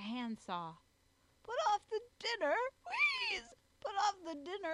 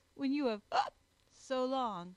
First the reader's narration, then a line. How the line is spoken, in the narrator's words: growled Jog, snorting into his frill as he spoke